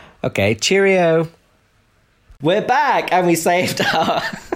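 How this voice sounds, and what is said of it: Usual voice. Nothing is said of it.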